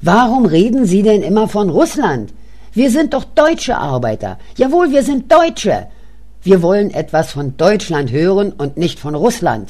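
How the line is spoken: Interrupting shout. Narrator (German): Ich rief dazwischen

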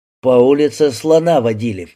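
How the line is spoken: Laughing. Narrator (Russian): засмеялся Антон

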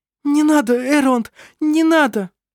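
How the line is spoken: Helpless sobbing. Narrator (Russian): Беспомощно всхлипывала она

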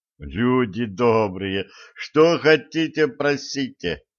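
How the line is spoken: Pleading. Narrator (Russian): взмолился Середин

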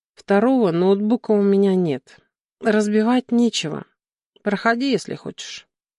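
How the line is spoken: Tired reply. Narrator (Russian): устало ответила

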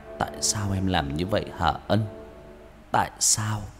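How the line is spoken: Tearful repeated muttering. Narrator (Vietnamese): Nam chảy nước mắt, mồm liên tục lẩm bẩm

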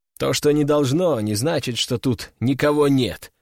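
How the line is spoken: Snort. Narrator (Russian): хмыкнул

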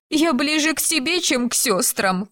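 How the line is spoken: Sobbing. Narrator (Russian): всхлипнула Сесилия

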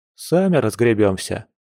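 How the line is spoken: Dismissive snort. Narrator (Russian): хмыкнул Яр

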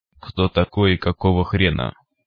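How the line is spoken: Metallic device voice. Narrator (Russian): металлическим голосом осведомилось устройство

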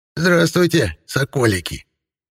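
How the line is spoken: Hoarse singsong. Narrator (Russian): Пропела хриплым голосом

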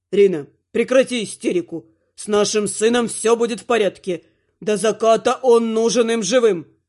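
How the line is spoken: Stern lord speaking. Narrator (Russian): строго произнес властелин

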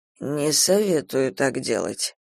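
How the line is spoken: Hoarse reply. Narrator (Russian): хрипло ответил

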